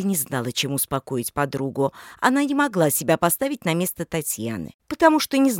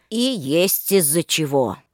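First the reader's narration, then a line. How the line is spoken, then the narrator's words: Snort. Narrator (Russian): хмыкнул Иван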